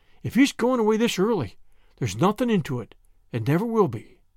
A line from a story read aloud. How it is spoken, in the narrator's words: gasped Charlotta